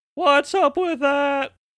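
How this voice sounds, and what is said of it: Imitates a cartoon character's voice. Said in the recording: “doing an impression of the fucking Jerry Seinfeld parody of the April Fool from Fairly Odd Parents”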